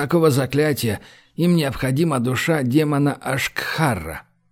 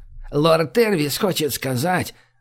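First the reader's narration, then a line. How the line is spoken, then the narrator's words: Grumbled. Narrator (Russian): заворчала Лими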